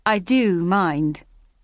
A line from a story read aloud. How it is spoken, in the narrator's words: said loudly